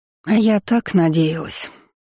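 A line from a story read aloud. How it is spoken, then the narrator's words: Sorrowful female sigh. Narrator (Russian): горестно вздохнула она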